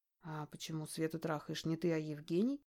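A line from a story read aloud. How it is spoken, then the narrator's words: Whispered question. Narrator (Russian): Также шепотом спрашиваю я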